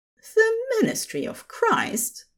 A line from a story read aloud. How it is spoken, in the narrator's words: the angel scoffed